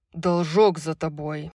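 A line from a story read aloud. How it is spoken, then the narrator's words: Growled. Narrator (Russian): Прорычал Хант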